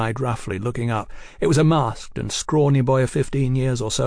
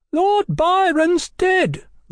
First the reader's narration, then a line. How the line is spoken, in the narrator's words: the boy yelled